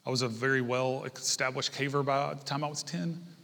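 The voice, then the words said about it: Sarcastic delivery. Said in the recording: “That was sarcasm”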